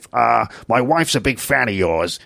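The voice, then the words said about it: Impression of Columbo the detective. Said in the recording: “I don't know if that's a good Columbo impression”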